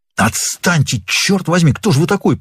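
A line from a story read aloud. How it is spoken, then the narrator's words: Hissed. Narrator (Russian): прошипел Норман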